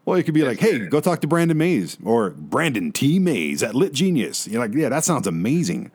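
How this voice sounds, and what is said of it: Usual voice. Nothing is said of it.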